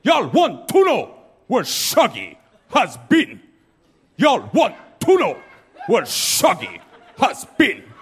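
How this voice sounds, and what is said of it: Deliberately bad Jamaican accent. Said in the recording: “I gotta do a Jamaican accent. Just know that I know it's bad.”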